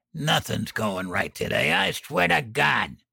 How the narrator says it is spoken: He clenched his teeth and snarled

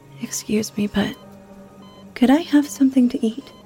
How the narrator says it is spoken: I asked as sweetly as possible

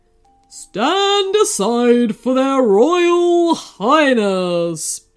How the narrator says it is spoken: boomed a loud voice

